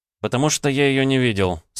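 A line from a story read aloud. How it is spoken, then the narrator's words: Calm. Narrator (Russian): спокойно ответил я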